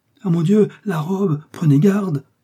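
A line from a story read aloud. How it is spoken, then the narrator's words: Exclamation. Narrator (French): s'écria Madame Lefrançois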